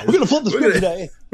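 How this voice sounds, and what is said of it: Radio DJ style voice. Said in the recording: “I don't know why I keep going into DJ voice”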